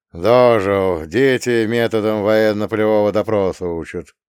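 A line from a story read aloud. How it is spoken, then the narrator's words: Sighing. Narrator (Russian): вздохнул он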